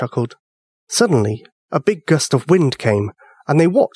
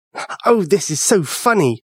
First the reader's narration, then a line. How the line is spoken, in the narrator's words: Sean laughed